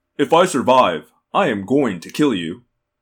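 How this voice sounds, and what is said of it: Weirdly calm voice. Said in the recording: “in a weirdly calm voice”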